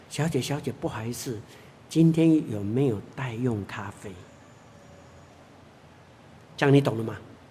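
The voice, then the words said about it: Very quiet, hushed speech. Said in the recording (Chinese): “很小声的跟那服务员讲”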